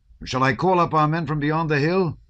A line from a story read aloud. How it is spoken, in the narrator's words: he called out